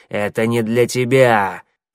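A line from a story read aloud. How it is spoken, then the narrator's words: Growling creature. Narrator (Russian): прорычал подошедший сзади коготь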